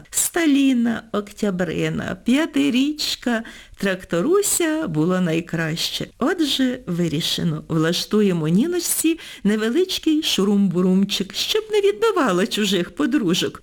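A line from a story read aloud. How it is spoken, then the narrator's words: Repeated after laughing. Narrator (Ukrainian): повторила Півоня, коли ми уволю насміялися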